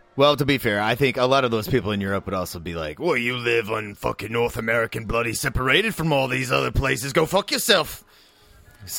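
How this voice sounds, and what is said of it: Put-on Australian accent. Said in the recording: “Once you do an Australian accent, can you get it out of your fucking mouth and head? No, you can't.”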